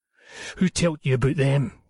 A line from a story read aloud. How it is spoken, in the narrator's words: demanded hoarsely